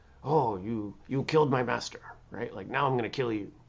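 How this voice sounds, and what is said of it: Put-on kung fu movie accent. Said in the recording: “That was my non-Asian accent.”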